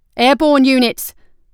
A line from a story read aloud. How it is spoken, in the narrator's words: shouted, over the roar of battle